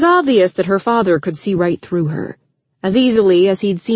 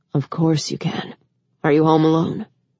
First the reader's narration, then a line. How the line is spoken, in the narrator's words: he gently said